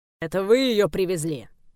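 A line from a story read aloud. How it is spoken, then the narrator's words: Growling official. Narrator (Russian): рыкнул высокий чин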